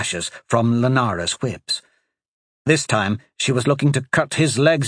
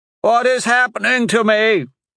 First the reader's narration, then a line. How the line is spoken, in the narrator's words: he cried out